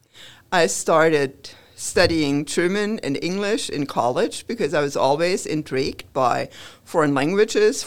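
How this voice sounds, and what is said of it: German accent. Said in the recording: “the accent gives it away. I'm a German transplant”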